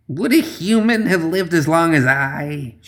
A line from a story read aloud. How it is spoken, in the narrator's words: she spat